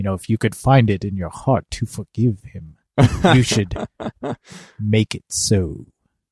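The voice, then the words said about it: Imitates another person's voice. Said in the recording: “worst Patrick Stewart impression”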